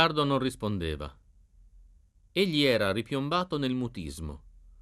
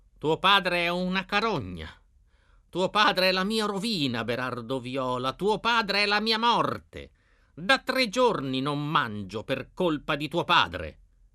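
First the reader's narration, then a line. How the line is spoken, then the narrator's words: Shouted. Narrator (Italian): gridava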